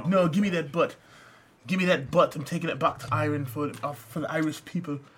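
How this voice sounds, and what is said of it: Bad put-on Irish accent. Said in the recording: “Your Irish accent is terrible ... Terrible ... a better Irish accent would be great”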